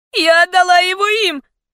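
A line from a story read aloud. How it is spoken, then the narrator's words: Agonized scream. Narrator (Russian): закричала в агонии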